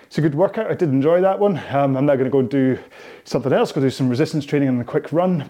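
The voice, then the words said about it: Out of breath, panting speech. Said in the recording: “I'm certainly out of breath.”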